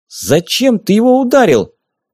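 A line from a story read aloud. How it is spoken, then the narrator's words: Indignant question. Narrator (Russian): Возмущенно спросила она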